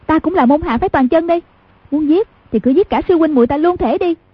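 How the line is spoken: Shouting. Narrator (Vietnamese): Trình Giao Gia quát lên

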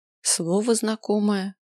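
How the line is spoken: Mumbling while trying to remember. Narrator (Russian): пробормотал я, напрягая память

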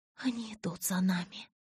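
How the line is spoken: Whispered in unison. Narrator (Russian): в один голос прошептала Элис с Эдвардом

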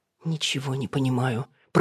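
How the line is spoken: Muttering. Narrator (Russian): пробормотала Алина

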